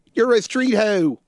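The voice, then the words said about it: Imitated Philly accent. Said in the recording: “that delightful Philly accent.”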